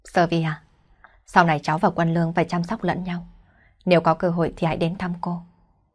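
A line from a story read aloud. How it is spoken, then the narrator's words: Soft sigh. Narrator (Vietnamese): Cô ấy khẽ thở dài một tiếng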